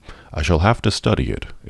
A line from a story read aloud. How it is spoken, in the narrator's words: it said